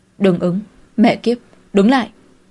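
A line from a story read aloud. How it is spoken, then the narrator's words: Loud shout. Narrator (Vietnamese): hét lớn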